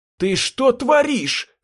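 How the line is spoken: Yelled. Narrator (Russian): заорал

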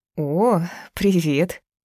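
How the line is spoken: Flustered, wary greeting. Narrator (Russian): Она встретила его растерянно и как-то настороженно

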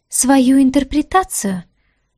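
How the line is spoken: Indignant exclamation. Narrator (Russian): Тут же возмущенно воскликнула она

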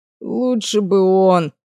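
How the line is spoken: Groan. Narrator (Russian): простонал огневик

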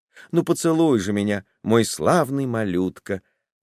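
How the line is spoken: Affectionate. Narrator (Russian): добавила ласково

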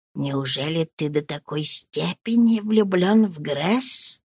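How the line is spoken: Whisper. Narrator (Russian): шепнула

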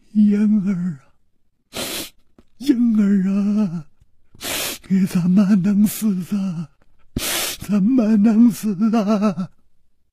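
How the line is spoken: Old woman's grieving sobbing murmur. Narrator (Chinese): 满头银发如丝的老妇人……悲痛地啼哭着，仿佛还在呢喃

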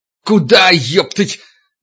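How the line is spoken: Bellowing. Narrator (Russian): Витька заорал, созывая остальных

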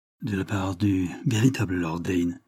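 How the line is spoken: Low voice. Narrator (French): répondit à voix basse M

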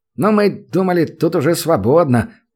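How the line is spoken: Mumbling. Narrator (Russian): промямлил

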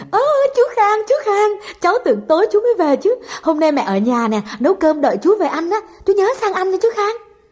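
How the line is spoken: Child's joyful exclamation. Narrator (Vietnamese): Con bé Dung thấy Khang nó reo lên

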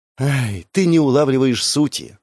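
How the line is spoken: Sigh. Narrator (Russian): вздохнула Арина

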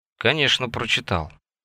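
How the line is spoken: Muttered. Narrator (Russian): пробормотал он

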